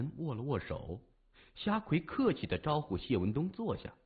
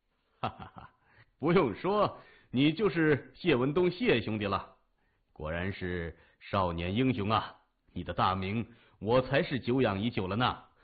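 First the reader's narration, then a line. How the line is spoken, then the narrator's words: Smiling. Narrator (Chinese): 他带着笑说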